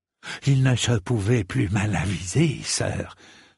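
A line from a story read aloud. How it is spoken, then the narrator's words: Whispering. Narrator (French): chuchota le gros lard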